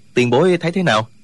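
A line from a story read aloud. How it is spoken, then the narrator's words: Smiling question. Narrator (Vietnamese): Trương Vô Kỵ mỉm cười hỏi Tông Duy Hiệp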